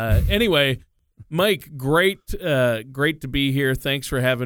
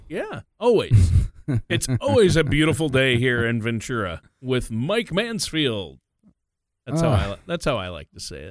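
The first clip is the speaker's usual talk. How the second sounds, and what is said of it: Cheesy announcer radio voice. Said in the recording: “your radio voice ... I can turn on the cheese when I want to”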